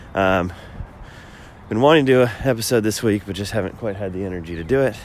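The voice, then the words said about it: Voice sounding ill, not fully recovered. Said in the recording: “as you can probably tell from my voice, not 100% recovered”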